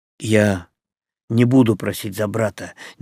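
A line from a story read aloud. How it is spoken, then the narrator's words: Quiet. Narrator (Russian): негромко сказал Игорь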